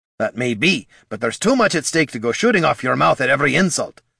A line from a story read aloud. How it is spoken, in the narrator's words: snapped Gorm